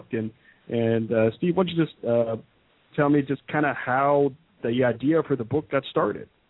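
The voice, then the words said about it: Polished radio-style voice. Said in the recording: “your radio voice is really fantastic”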